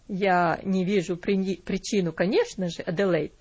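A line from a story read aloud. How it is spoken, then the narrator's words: Dry. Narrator (Russian): сухо сказал он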